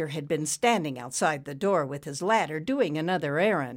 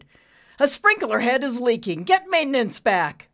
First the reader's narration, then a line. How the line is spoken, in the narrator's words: he shouted